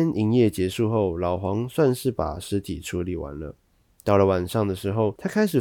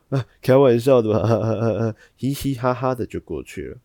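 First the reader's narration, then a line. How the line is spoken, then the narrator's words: Amused, laughing disbelief. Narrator (Chinese): 客人听到觉得很荒谬，便也笑着说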